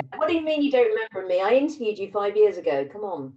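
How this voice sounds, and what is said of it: British accent. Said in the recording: “this accent? ... one of the few British people there”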